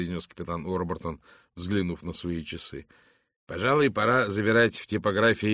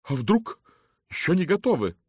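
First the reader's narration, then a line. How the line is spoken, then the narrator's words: Trembling voice. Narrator (Russian): дрогнувшим голосом спросила миссис Оливер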